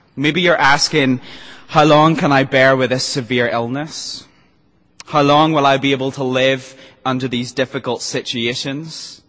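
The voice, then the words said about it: Hybrid mixed accent. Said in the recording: “the character with the hybrid accent”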